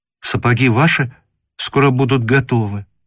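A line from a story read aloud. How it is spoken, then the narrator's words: Gentle, slightly frightened. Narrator (Russian): сказала нежным и как бы слегка испуганным голосом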